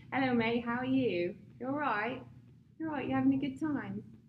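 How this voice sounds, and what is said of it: Put-on British accent. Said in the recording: “so what's your British accent? ... it's going to sound Australian ... That's not too bad. That's pretty good, right? ... That does sound really good.”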